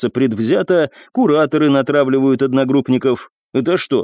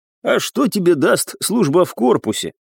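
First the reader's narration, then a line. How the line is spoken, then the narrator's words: Scoffing. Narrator (Russian): хмыкнул Павлюсон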